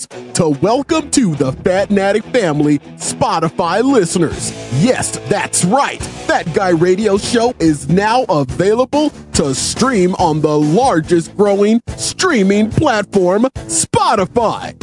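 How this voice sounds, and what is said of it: Radio DJ voice. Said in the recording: “I'm using my radio DJ voice”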